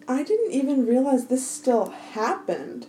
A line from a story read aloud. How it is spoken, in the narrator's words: said breathlessly